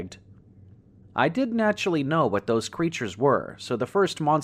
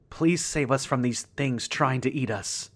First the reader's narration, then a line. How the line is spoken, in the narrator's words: I said quickly, my voice pitching in panic